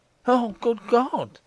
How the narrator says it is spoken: cried Morris

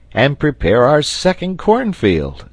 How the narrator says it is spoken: cried the sailor with a triumphant air

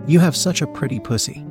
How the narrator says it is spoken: she cooed softly

